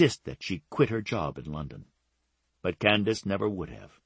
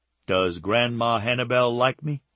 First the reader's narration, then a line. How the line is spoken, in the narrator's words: asked in a teasing tone